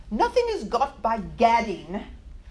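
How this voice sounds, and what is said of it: Put-on English accent. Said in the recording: “I am going to use my English accent, so pardon me for anyone who's English in here.”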